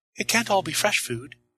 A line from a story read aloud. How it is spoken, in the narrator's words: she'd said